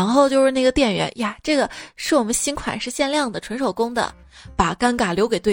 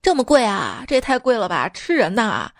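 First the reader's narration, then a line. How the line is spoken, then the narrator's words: Loud astonished exclamation. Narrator (Chinese): 并大声的惊叹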